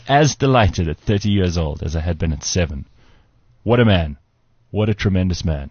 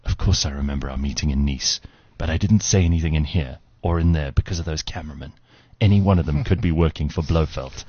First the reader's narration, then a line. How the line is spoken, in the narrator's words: in a hushed voice said